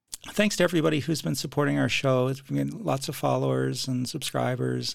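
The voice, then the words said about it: Hoarse, croaky voice. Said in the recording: “my voice is a little out today ... I'll sound like a frog”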